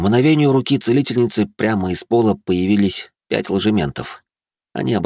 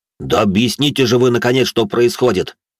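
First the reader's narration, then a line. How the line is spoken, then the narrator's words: Irritated bark. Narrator (Russian): раздраженно рявкнул Борка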